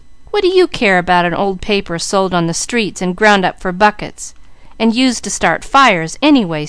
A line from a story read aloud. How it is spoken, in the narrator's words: scoffed Mickey